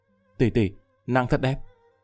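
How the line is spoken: Dazed admiring whisper. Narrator (Vietnamese): Lâm Vân Vinh ngẩn người thì thào lẩm bẩm

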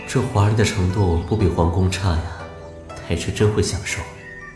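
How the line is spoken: Admiring exclamation. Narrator (Chinese): 公孙赞叹不已

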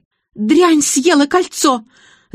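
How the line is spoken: Unrestrained scream. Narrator (Russian): завопила Зоя Игнатьевна, разом забыв о безупречном поведении

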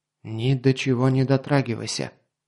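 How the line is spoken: Whisper. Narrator (Russian): шепнул

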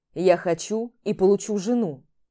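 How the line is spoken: Growled. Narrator (Russian): Прорычал

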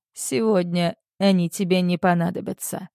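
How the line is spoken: Calm answer. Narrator (Russian): спокойно отвечаю я

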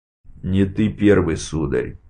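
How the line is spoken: Gloomy. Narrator (Russian): мрачно произнес Головкин

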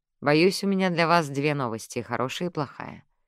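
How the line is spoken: Gentle. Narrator (Russian): мягко проговорила Диана

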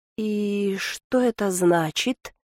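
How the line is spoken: Bewildered drawl. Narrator (Russian): растерянно протянула Лантана

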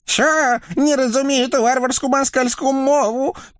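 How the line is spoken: Terrified squeak, devil. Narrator (Russian): пискнул насмерть перепуганный черт

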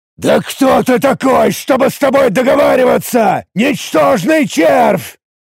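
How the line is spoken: Roaring. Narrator (Russian): Взревел Тарак

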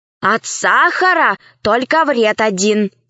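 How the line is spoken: Plain. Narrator (Russian): сказал Аркаша

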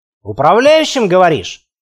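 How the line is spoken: Snorting. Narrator (Russian): хмыкнул я

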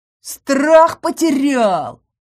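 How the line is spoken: Roaring. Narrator (Russian): взревел он

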